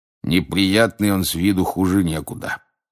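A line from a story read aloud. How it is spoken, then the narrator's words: Grumbling man. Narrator (Russian): проворчал мужчина у стойки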